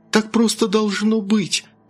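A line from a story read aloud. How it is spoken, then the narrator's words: Exclaimed. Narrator (Russian): воскликнула Бритни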